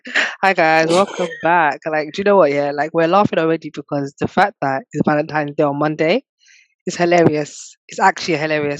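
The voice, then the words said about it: Congested voice from a cold. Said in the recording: “I've got a bit of a cold, so bear with my voice.”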